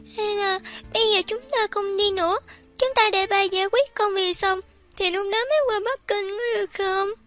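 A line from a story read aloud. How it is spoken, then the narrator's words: Sobbing. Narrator (Vietnamese): Sam Sam nức nở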